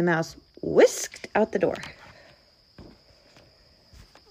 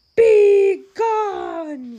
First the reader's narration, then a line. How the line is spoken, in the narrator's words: roared the bear